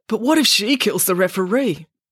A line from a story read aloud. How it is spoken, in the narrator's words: Pumpkin barked happily at the idea